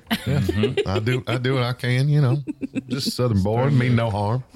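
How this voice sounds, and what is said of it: Put-on Southern US accent. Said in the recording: “that accent, boy ... It's close in a lot of places ... Good old boy ... a Southern accent”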